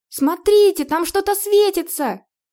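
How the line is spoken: Sudden excited shout. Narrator (Russian): Вдруг закричала взволнованная Морена

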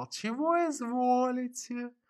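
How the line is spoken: Honeyed mumbling. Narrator (Russian): официант и медовым голосом забормотал

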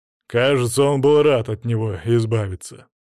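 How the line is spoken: Snorting chuckle. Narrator (Russian): хмыкнул Браслов

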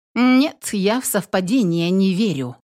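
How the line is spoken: Loud exclamation. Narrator (Russian): воскликнула громко Владу

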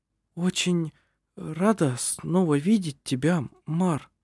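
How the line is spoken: Slow, halting. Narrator (Russian): произнесла она медленно, запинаясь

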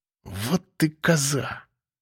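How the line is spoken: Hissing. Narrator (Russian): прошипел я кадровичке

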